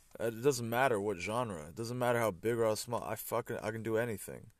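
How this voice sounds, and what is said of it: American accent. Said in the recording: “grew up in Portugal, but going to an American school, so that's why I sound American”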